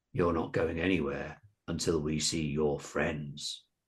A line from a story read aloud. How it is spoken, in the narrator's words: The biggest one, Shane Parmesan, said menacingly